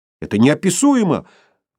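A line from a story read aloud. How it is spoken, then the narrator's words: Exclaimed, woman. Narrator (Russian): воскликнул юноша, оказавшийся женщиной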